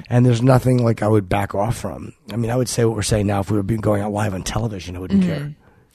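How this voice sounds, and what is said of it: Sleepy, strained voice, slow speech. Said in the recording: “I'm very sleepy and my voice is getting a little bit shot, so I'm talking slower”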